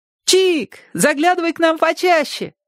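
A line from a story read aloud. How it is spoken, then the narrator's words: Shouted. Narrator (Russian): крикнула Ляля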